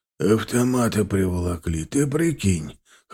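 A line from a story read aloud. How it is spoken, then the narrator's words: Slightly hoarse. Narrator (Russian): хрипловато проговорил Степаныч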